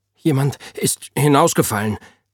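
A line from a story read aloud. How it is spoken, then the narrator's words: Young man stammering. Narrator (German): Der junge Mann stammelte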